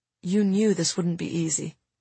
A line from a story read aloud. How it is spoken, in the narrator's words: he said quietly